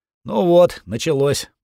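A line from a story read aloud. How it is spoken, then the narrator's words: Groaning. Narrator (Russian): простонал маркиз Тилсбери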